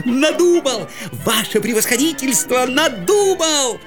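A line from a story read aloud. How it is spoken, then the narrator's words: Joyful shout, strange voice. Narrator (Russian): закричал он радостно, не своим голосом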